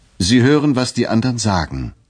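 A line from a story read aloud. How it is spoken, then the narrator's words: Called out. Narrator (German): rief ich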